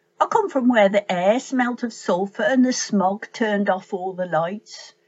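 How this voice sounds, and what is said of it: Black Country English accent. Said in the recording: “she reads in her best Black Country accent”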